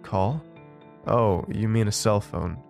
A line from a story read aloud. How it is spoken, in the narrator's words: he said